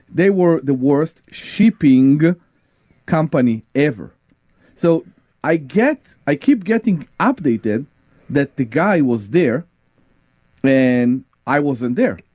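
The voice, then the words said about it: Noticeable accent in English. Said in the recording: “you can blame my accent ... Yes, it was your accent.”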